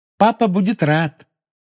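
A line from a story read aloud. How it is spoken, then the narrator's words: Cheerful promise. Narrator (Russian): весело пообещала Полумна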